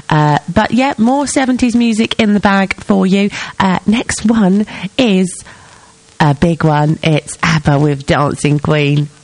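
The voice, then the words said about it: Stuffy, congested sick voice. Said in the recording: “I can feel myself getting progressively more under the weather ... My nose is stuffy ... sorry if my voice sounds a little bit off key”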